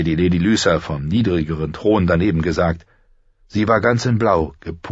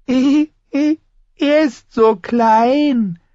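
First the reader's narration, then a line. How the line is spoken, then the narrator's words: Giggling. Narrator (German): hatte der Lord kichernd gesagt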